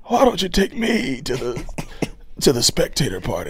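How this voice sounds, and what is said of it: Hoarse imitation of a character's voice. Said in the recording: “I'm going to do my impression of Charlie in this scene ... That motherfucker be hoarse ... She be hoarse as hell”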